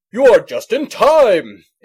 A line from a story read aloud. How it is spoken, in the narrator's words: exclaimed Santa